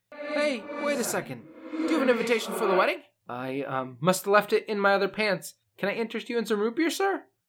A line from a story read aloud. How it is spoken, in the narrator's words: he shouts